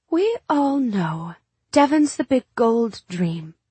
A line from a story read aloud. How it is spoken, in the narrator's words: she said coolly